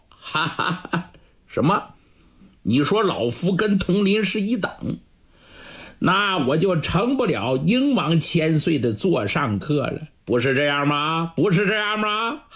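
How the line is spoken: Loud laughter. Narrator (Chinese): 圣玉 哈哈大笑

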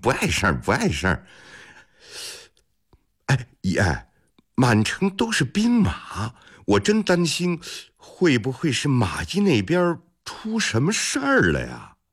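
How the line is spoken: Genial, smiling. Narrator (Chinese): 李泰…堆出一副笑脸，一团和气地说

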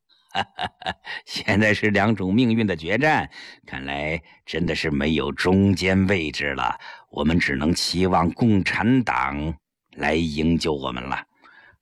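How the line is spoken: Bitter laugh. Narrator (Chinese): 张兰苦笑道

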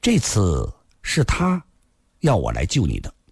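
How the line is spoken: Slow, hesitant, subdued. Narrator (Chinese): 阿飞的脸色又苍白了些，沉默了很久才缓缓说道

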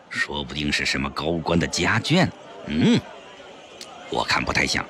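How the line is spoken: Low, hushed voice. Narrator (Chinese): 肥肥也压低声音说

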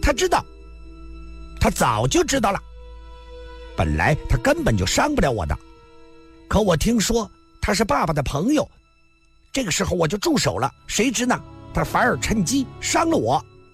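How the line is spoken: Sudden loud voice. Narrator (Chinese): 红孩突然大声地说道

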